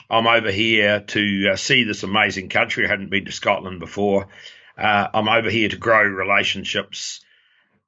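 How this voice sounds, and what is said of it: New Zealand accent. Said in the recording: “it isn't a Scottish accent, but it is a New Zealand one”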